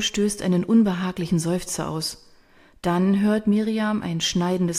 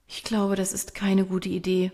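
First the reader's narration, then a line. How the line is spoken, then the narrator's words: Murmur. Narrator (German): murmelt Caro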